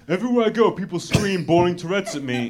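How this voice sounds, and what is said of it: Imitates another person's voice. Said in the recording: “You sound exactly like him. Do that again. That's incredible.”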